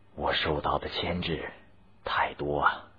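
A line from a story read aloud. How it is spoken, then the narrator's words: Wary sigh. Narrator (Chinese): 光绪帝怕有人偷听，叹息说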